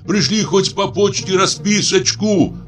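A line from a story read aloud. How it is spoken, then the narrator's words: Shouted. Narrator (Russian): крикнул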